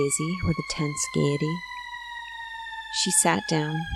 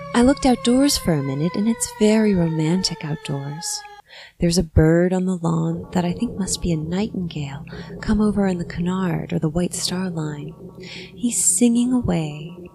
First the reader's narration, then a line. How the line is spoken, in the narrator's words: her voice sang